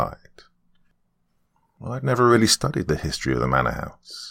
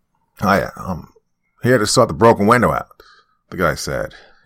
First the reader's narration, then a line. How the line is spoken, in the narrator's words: his voice raspy, like he smoked cigarettes like there was no tomorrow